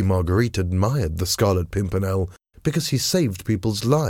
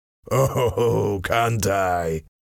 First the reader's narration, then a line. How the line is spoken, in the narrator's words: Chauvelin replied with a cold laugh